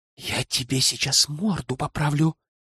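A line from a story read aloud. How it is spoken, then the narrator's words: Hissed. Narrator (Russian): прошипел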